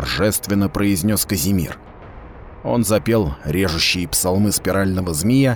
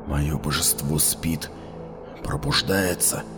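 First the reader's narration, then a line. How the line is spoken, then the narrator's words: Whisper. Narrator (Russian): шептал Таласка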